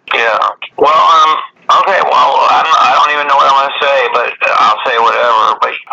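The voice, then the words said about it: Nasal, congested voice. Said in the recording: “I'm really nasally ... I have a cold, dude. So I sound like a fucking nerd”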